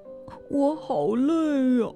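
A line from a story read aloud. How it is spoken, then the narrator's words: Soft crying. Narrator (Chinese): 狮子轻声哭了起来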